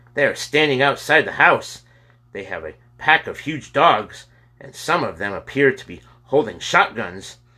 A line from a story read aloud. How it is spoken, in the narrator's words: said the policeman firmly, with fear in his voice